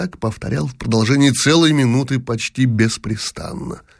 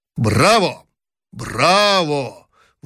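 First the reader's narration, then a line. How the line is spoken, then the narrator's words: Sudden loud speech. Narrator (Russian): вдруг громко сказал император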